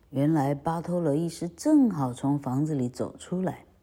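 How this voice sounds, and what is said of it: Hushed, quiet spoken line. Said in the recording (Chinese): “Figaro 突然小声地对公爵说”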